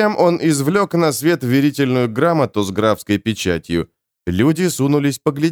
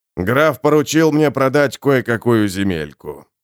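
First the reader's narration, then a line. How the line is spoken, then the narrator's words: Plain, merchant. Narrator (Russian): сказал торговец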